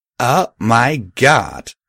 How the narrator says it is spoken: Raggy exclaimed loudly, like only a teenager could

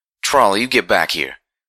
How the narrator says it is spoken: the mother called out as the colt started to trot a little too fast

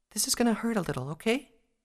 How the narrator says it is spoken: she told the injured Pegasus soothingly

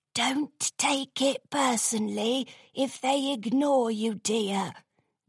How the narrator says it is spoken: whispered an old unicorn mare

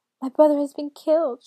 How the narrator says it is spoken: she cried

